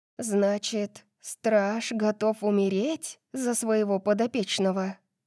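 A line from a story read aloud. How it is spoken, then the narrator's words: Lowered to whisper. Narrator (Russian): спросила Дарси, понизив голос до шепота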